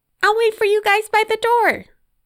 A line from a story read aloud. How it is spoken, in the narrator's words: she yelled at her parents